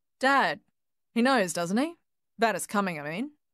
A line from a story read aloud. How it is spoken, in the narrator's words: Paul finally asked